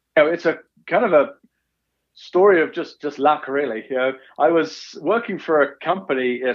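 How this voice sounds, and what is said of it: English accent from Essex. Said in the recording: “has a bit of an accent here, and it's not from Utah ... originally I'm from England, Essex, just east of London”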